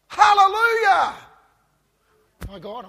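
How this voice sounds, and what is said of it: Shouting loudly. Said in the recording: “I'm shouting.”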